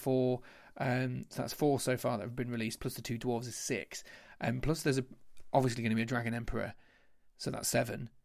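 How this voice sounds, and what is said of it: Hoarse, strained voice. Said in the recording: “As you can tell, my throat's starting to cave in.”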